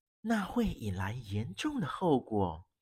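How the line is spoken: Lowered voice. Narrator (Chinese): 亚森·罗平压低声音说

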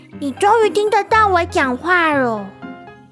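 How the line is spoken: Very quiet question. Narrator (Chinese): 小小声问

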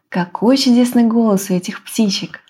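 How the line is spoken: Plain. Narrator (Russian): сказала девушка

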